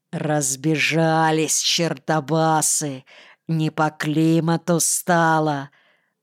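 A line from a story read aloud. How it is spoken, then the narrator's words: Gloating, creaky voice. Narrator (Russian): злорадно проскрипел Крах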